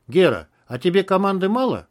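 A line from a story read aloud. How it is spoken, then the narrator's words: Calm question. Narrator (Russian): Малахов также спокойно спросил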